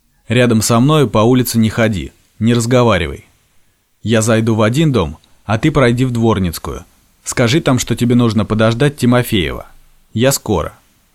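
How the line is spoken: Stern. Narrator (Russian): строго сказал

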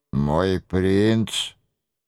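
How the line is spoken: Hoarse harsh voice. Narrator (Russian): отозвался хриплый и жесткий голос

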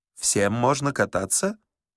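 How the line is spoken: Uncertain question. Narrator (Russian): Горбун, неуверенно спросил

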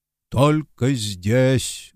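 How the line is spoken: Deep bass confirmation. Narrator (Russian): глубоким басом подтвердил мистер Одли

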